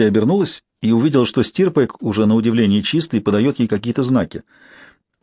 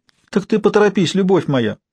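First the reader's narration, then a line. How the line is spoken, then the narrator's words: Whiny thin squeak, from afar. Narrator (Russian): плаксиво пропищал из коридора тоненький голос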